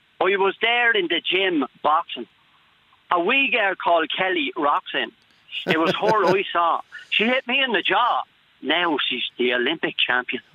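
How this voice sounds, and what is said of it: Deliberately bad put-on accent. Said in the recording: “I'm going to do it in a very bad accent”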